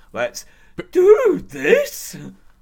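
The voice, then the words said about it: Imitates another person's voice. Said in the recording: “that Brock Lesnar impression now, like with the way of fucking voice is”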